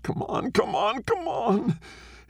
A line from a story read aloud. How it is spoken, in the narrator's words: His shoulders racking with sobs, says